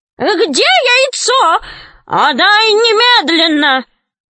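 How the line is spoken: Shrieking. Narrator (Russian): визжала она

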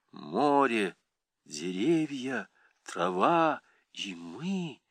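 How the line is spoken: Low muffled strange voice. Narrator (Russian): сказала Сима низко и глухо каким-то чужим голосом

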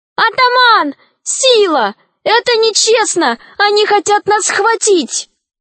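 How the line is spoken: Shout. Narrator (Russian): Алиса закричала

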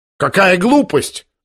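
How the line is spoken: Shout. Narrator (Russian): закричал племянник Лебедева

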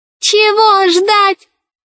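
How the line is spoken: Shrieking ball. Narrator (Russian): завизжал мяч

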